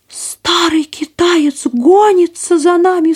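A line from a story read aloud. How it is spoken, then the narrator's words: Sharp cry. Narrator (Russian): вскрикнула пастушка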